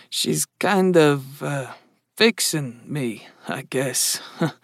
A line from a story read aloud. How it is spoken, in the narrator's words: Mark mumbled